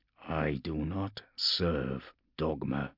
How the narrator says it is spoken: he murmured to himself

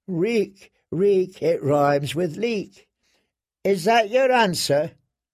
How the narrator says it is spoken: rang feebly

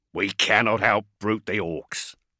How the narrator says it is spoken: snarled Esadwyr

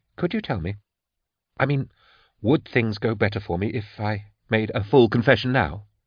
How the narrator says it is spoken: he said quietly

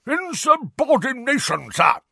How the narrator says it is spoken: roared a corpulent, red-nosed wizard

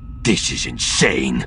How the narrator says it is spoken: he spat, some of his courage starting to come back

